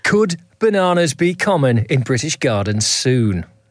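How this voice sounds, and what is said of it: Formal newsreader-style voice. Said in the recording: “I'm going to do this one in my newsreader voice.”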